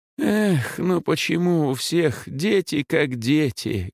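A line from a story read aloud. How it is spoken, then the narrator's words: Sorrowful sigh, old priest. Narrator (Russian): горестно вздохнул батюшка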